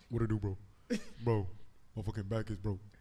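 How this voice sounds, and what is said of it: Imitates another person's voice. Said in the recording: “This is my B impression, y'all. Watch this.”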